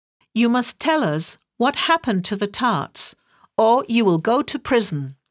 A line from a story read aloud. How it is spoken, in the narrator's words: the King said